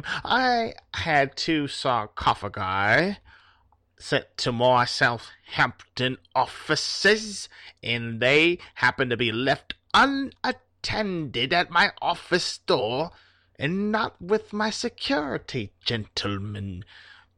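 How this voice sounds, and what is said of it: Crocodile Dundee style Australian accent. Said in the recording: “he has a Crocodile Dundee accent”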